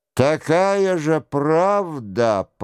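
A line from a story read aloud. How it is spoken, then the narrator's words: Close grumble. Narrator (Russian): пробурчал он ему в лицо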